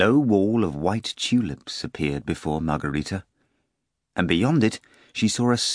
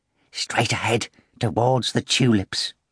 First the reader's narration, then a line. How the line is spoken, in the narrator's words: whispered